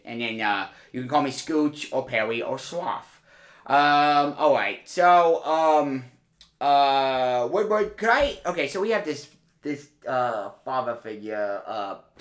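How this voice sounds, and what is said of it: Put-on British accent. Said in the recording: “no need to comment on my accent ... I'm going to keep the effect because I'm going to write something in British”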